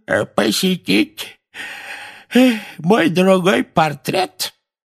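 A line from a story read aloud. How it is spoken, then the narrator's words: Creaky voice, feigned yawn. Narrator (Russian): скрипучим голосом сказал Финеас с притворным зевком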